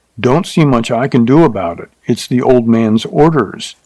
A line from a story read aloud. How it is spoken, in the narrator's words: The boss said angrily